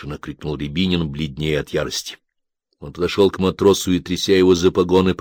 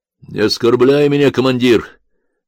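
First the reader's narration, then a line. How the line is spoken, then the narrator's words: Angry sailor shouting. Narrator (Russian): гневно крикнул матрос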